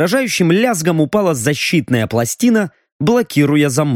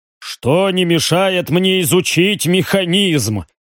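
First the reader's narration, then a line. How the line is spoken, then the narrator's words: Wry snort. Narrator (Russian): хмыкнул Риган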